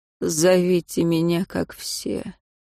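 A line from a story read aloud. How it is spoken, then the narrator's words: Creaky hunched voice. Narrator (Russian): Все так же сидевший, сгорбившись, Проклятый, отвлекся от созерцания собственных рук при звуке ее голоса, проскрипел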